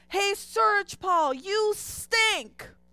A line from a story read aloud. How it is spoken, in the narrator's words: he yells from the end of the hall